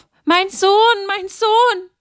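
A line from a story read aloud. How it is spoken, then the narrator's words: Loud cry. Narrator (German): schrie sie laut auf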